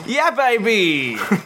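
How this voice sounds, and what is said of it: Austin Powers character impression. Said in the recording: “do an Austin Powers impression? ... That's very good. That's very good.”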